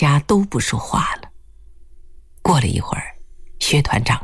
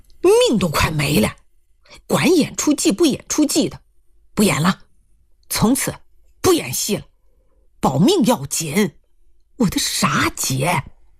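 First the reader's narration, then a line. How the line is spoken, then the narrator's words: Loud roar. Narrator (Chinese): 他弟大声吼道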